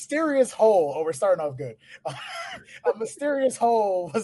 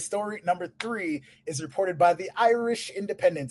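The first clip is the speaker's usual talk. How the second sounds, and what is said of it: Put-on accent, possibly Irish. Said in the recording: “I don't know if that accent was okay or not. ... beautiful.”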